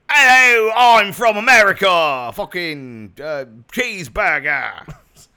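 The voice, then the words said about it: Bad put-on American accent. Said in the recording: “sound more American ... Now he sounds like Mick Jagger”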